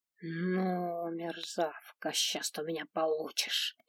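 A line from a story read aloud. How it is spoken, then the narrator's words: Angry hiss. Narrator (Russian): зло прошипела хранительница гарема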